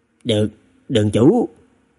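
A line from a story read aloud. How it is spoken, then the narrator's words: Frightened trembling. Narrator (Vietnamese): Người Phu Kiệu, Nhất Kiệu cũng nhìn thấy Trần Thực, tim đập thình thịch, run rẩy nói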